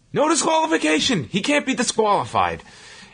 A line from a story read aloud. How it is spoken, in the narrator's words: Lawler yells